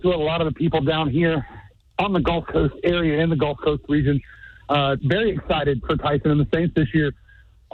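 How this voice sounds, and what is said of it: Out of breath, panting speech. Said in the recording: “Why are you so out of breath?”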